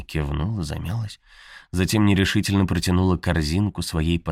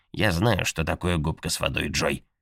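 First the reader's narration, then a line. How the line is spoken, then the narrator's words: Cold sharp tone. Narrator (Russian): холодно и резко сказала миссис Оуэн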